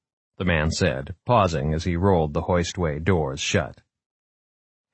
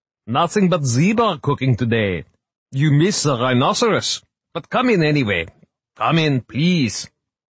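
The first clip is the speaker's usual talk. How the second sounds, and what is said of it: Thick Austrian accent, elderly man. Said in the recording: “his thick accent was Austrian”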